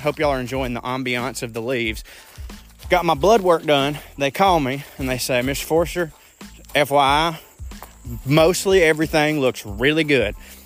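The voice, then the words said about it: Speaks with a noticeable regional accent. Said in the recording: “Y'all hear my accent.”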